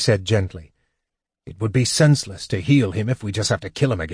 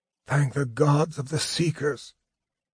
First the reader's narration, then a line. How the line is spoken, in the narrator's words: he said hoarsely